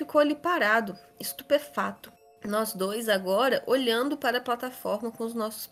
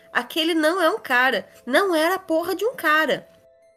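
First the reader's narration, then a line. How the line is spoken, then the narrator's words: Exclaiming while running. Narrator (Portuguese): Corri o mais rápido que pude para Pete, exclamando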